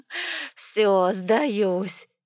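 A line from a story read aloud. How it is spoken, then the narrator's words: Laughing. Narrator (Russian): рассмеялась я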